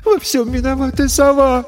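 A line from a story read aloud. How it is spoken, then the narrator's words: Sobbing. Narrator (Russian): всхлипнула Ресси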